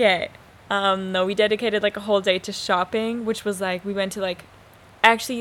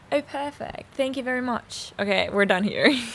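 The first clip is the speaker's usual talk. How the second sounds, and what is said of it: Put-on British accent. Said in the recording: “that was in British accent. A British accent. ... Isn't it good? ... It is really impressive”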